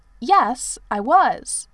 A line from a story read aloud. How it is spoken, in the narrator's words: said Percy rather indignantly